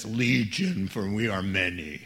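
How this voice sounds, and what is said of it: Attempted scary demon voice. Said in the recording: “So much for my scary voice.”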